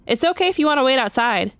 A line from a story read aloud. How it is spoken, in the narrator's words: she said